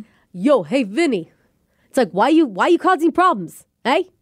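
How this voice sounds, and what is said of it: Attempted New York accent. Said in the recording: “can you do a New York accent? ... I'm worried that it's going to sound Mexican mixed with Italian, mixed with Bostonian”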